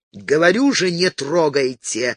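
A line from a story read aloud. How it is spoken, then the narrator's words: Growling again. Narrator (Russian): снова прорычал Стивен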